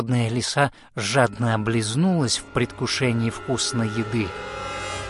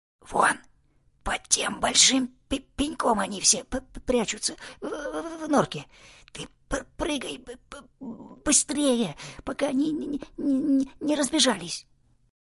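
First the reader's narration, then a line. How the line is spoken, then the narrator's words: Soft whisper. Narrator (Russian): Заяц тихонько прошептал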